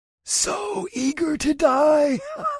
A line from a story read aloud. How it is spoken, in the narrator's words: The Shadow Man cackled